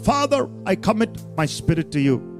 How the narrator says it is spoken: he cried out

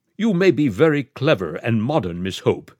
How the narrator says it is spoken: said Miss Quabarl firmly

